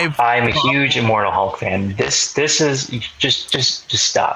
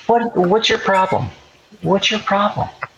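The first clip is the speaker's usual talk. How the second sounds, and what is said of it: Angry whisper. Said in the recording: “I'm whispering my rage at you.”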